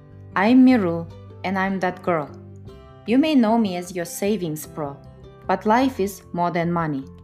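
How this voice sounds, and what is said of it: Russian accent. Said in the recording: “with a Russian accent”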